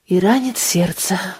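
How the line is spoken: Sighing. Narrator (Russian): вздохнула Анна

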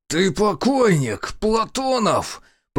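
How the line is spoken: Hiss. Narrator (Russian): Прошипел Уваров

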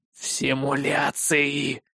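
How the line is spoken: Quiet, through teeth. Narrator (Russian): сквозь зубы поправил его ученый, но никто, кроме меня, этого не услышал

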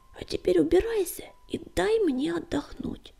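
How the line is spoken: Sleepy mumble. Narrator (Russian): сонно пробормотала она

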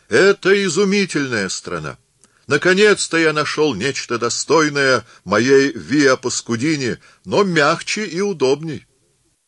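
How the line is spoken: Shouting. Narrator (Russian): он закричал нам

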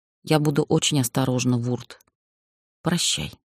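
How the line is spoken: Sad but firm whisper. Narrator (Russian): я грустно, но твердо прошептала

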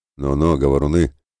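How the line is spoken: Good-natured smiling grumble. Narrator (Russian): Широко улыбаясь, добродушно проворчал Ратибор

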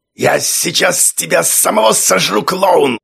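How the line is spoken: Angry shout. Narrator (Russian): злобно крикнул Цванк

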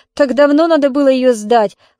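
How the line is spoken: Tipsy chuckle. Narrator (Russian): хохотнул подвыпивший Петька

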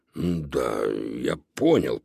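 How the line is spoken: Muttering. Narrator (Russian): пробормотал Додо

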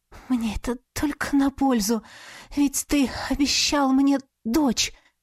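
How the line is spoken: Passionate ecstatic moan. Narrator (Russian): В пылу страсти, простонала я, уже теряя собственную мысль в бессвязных эмоциях восторга

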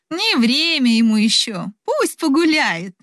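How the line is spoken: Laughing mother. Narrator (Russian): рассмеялась мать в ответ

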